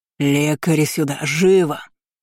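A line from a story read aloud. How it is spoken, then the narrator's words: Furious roar. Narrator (Russian): проревел, охваченный всепоглощающим гневом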